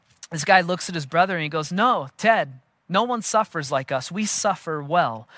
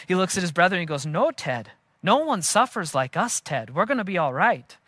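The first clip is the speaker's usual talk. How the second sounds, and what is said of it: Poor Canadian accent drifting Scottish. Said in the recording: “Forgive my terrible attempt at a Canadian accent. ... Which turned a little Scottish, my accent there at the end”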